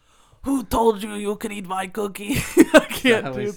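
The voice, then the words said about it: Attempted Austrian accent, gruff voice. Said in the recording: “That sounds like the Cookie Monster. ... Oh, you were trying to do an Austrian accent.”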